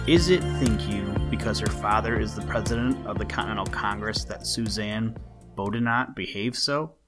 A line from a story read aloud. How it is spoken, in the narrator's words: Abigail whispered the question across the aisle of a dame's school in old Boston